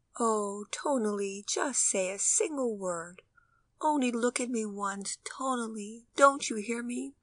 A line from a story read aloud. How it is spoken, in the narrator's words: In tender tones, the mother continued mournfully